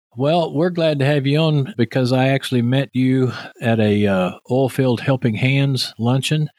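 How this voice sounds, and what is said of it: Texas accent. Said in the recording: “my uh, Texas accent here”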